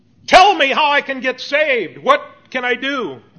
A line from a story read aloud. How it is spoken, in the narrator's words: this man comes screaming out